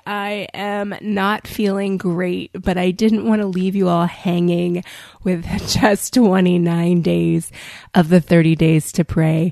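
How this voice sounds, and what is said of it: Voice sounding a little different, unwell. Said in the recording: “I was diagnosed earlier this week with good old COVID, and so that's why my voice may sound a little different today.”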